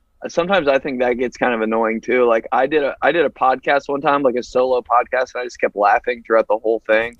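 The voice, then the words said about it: Slight drawl. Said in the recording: “you sound like this assistant football coach ... you have a little drawl”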